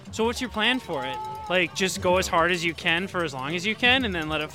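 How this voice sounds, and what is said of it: Minnesota accent. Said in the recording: “I'm from Minnesota. If you can't tell from my accent”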